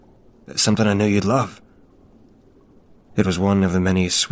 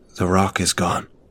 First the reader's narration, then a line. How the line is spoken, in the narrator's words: whispered